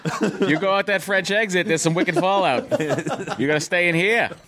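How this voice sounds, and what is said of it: Put-on Boston accent. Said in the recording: “Boston. ... Boys get an accent. ... Wicked good. ... talk like that”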